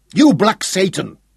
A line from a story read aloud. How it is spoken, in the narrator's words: Schroeder roared with frustration